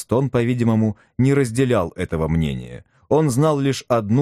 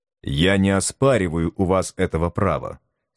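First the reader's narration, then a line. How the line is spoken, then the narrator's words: Grave solemn tone. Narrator (Russian): сказал председатель комиссии таким серьезным тоном, как будто он говорил от лица всего мира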